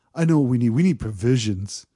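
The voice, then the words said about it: Imitates another person's voice. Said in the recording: “I'm going to try to do the Lance voice.”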